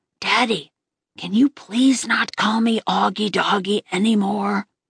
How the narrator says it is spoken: I whispered in Dad's ear

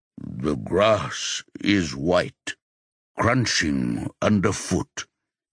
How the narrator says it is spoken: he says slowly

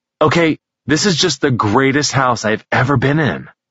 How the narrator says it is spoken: Mason exclaimed excitedly

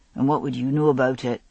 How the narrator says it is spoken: Murtaugh grumbled

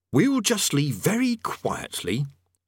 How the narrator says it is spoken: he said firmly

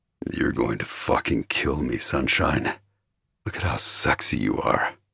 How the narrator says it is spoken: he growled

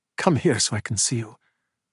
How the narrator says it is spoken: he said quietly

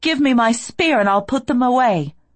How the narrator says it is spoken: I shout

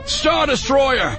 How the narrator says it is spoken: the pilot exclaimed in response to the new sensor reading

